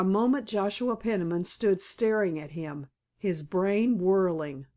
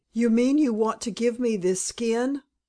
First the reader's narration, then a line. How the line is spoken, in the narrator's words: cried Joe